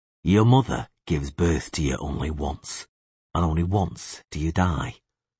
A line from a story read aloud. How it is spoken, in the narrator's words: the witcher said calmly